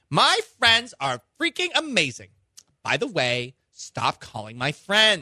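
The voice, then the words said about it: Imitated mom voice. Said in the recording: “I love your mom voice.”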